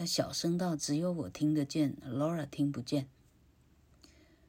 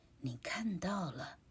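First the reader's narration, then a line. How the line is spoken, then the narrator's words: Whispering in ear. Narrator (Chinese): 玛丽安很小声的在我耳朵旁边说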